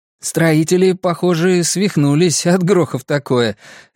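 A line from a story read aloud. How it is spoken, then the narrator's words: Nervous laugh. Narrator (Russian): Ричи нервно рассмеялся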